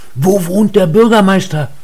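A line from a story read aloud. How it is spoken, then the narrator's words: Calling out. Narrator (German): Er rief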